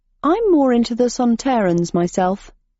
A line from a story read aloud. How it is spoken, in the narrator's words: said Miles